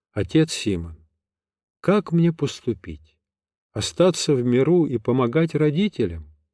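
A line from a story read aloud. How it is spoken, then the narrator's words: Timid opening. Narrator (Russian): робко начала беседу София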